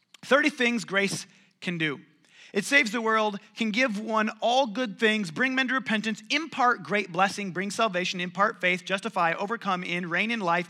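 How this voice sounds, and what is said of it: Reading a list very fast. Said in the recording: “I'll read through it kind of quickly ... I'm going to read it faster than you can write it.”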